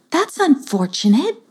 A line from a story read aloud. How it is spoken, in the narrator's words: said Sweet Toothia in a very kind voice